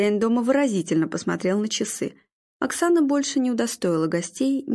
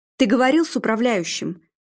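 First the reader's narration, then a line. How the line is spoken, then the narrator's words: Barely restrained emotion. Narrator (Russian): Арнольд с трудом сдерживая эмоции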